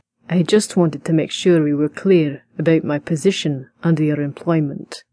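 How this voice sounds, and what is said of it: Slow deep whispered Scottish accent. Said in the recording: “said this slowly, in a deep, whispered voice ... It sounded so sensual in that Scottish accent”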